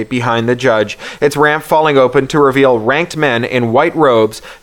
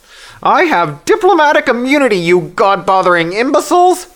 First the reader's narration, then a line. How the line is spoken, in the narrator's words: she screeches, the amplified howls knifing through their skulls